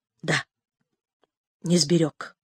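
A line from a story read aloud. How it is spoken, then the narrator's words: Barely audible, dejected commander. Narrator (Russian): Опустив голову, комбат еле слышно проговорил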